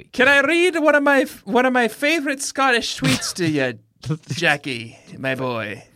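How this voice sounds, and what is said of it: Passable Irish-sounding accent, not Scottish. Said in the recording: “Very a passable Irish accent and not Scottish.”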